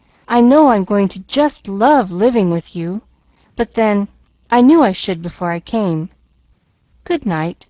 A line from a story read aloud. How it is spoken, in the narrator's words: she called cheerfully as she ran from the room